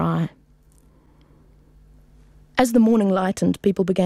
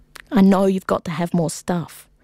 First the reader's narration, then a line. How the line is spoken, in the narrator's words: murmur